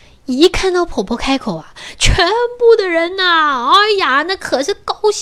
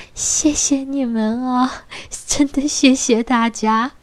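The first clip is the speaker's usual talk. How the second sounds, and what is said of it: Shy, quiet soft voice. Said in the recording (Chinese): “很害羞的小声的跟大家说”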